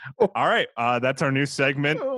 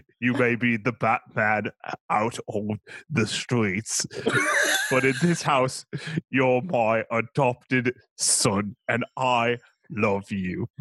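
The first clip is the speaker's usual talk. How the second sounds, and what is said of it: Put-on accent. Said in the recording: “tries an accent ... you agree that I do a good accent.”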